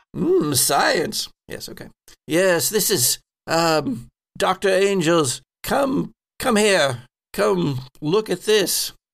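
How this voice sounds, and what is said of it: Put-on character accent. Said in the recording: “let me get my accent because this ain't it.”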